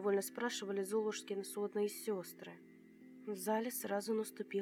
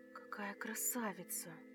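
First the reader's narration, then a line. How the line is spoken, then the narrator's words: Crowd whispering. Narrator (Russian): шептались кругом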